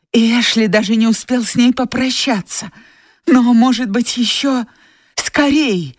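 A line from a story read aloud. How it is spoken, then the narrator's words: Exclaimed. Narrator (Russian): воскликнула она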